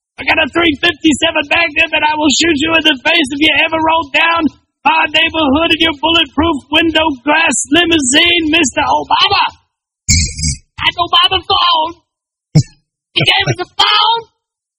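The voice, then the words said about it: Imitates another person's voice. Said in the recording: “That was a great impression”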